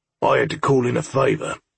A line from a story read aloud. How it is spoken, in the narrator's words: Gordon growled